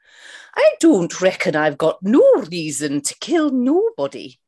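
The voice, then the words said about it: Mrs. Doubtfire accent. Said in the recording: “in the style of Mrs. Doubtfire ... the Mrs. Doubtfire accent”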